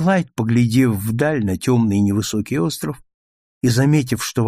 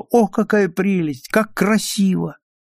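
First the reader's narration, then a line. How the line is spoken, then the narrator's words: Exclaiming. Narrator (Russian): Роберта воскликнула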